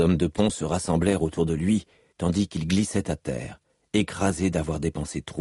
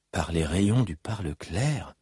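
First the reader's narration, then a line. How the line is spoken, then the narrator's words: Murmured. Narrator (French): murmura Drei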